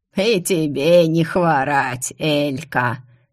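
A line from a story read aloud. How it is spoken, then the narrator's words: Creaky chuckle. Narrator (Russian): Со смешком проскрипел куст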